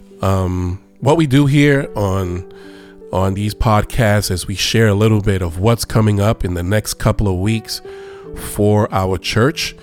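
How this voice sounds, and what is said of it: Sick-sounding voice. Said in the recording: “Please excuse my voice. I had a cold and I'm still coming out of this cold.”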